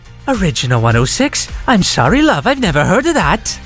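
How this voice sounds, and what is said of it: Put-on Welsh accent, fairly good. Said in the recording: “she's Welsh, I'm going to try the accent... That's not a bad accent”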